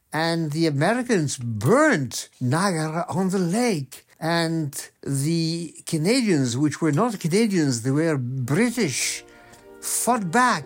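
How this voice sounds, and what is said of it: Speaking in a put-on accent. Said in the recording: “What is this new accent that you're doing?”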